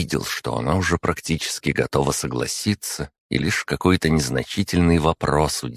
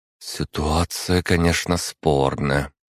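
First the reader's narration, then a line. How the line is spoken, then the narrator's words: Sighing. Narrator (Russian): вздохнула Эльжбета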